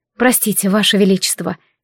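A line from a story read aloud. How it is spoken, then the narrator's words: Quiet. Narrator (Russian): тихо произнесла я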